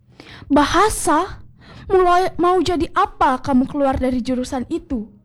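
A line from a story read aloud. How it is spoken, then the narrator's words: Father's angry snap. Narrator (Indonesian): bentak ayah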